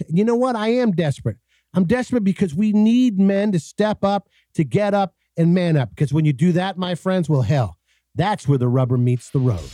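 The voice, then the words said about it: Desperate, pleading delivery. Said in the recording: “you can hear the desperation in my voice”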